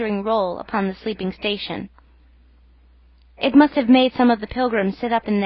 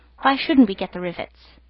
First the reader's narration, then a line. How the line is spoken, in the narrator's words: said the boilermaker in a reasonable tone